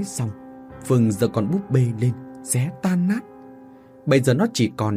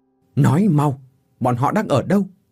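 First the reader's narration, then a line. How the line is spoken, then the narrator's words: Angry question. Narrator (Vietnamese): hỏi trong giận dữ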